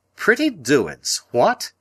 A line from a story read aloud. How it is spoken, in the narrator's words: he cried